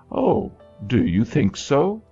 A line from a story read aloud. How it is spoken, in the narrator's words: Rachel exclaimed